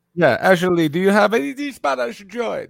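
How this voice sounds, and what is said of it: Put-on Spanish accent. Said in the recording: “This is a Spanish accent, by the way. ... Oh, that's really good. ... do you like my Spanish accent?”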